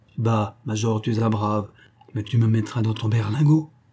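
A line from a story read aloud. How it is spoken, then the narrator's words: Plain. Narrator (French): dit le grenadier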